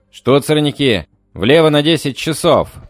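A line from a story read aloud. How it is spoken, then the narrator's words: Shouted. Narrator (Russian): прокричал я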